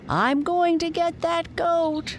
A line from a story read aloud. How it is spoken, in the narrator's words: cried the boy who had first seen Lightfoot